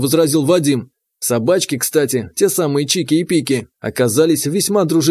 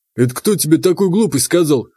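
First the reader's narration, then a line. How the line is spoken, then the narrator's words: Amused snort. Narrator (Russian): хмыкнул Вадим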